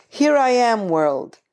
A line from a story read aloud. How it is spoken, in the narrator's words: A little voice cries out